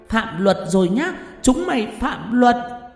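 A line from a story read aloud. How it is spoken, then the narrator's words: Shrill hiss. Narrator (Vietnamese): Con quỷ đầu đàn rít lên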